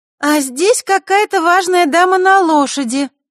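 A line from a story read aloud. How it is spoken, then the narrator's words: Loud announcement. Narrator (Russian): громко объявила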